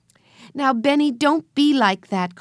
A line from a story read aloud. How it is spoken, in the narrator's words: cried Jesse